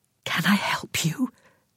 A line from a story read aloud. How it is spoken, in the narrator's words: whispered